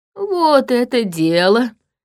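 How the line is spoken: Perked up, eager. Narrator (Russian): оживился

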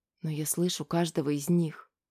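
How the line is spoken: Whisper. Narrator (Russian): прошептала она

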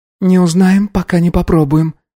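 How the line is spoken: Sad, smiling. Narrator (Russian): грустно улыбнулась Сандра

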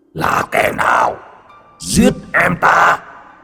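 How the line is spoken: Monstrous roar. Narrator (Vietnamese): Con quái vật từ địa ngục chui lên, nó gầm thét

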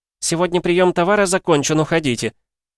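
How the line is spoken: Woman's voice. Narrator (Russian): женским голосом сказали

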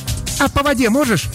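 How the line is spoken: Playful shout. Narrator (Russian): задорно крикнула Влада

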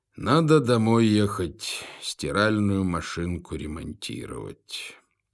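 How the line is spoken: Sigh. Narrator (Russian): вздохнул он

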